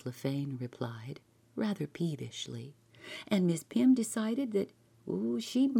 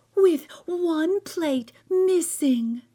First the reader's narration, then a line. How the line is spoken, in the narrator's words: cried Martha Pym